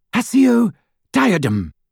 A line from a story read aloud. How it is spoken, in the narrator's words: cried Hermione in desperation